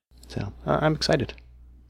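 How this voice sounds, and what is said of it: Flat monotone, sarcastic. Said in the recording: “my monotone voice”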